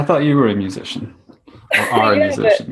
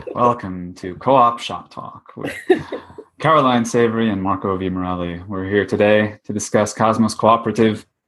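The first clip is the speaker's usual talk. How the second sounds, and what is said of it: Fake radio announcer voice. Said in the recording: “my stupid faux radio voice, which I'm going to drop any second now”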